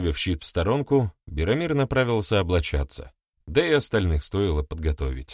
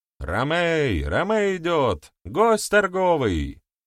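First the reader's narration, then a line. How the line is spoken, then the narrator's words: Shout. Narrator (Russian): кто-то крикнул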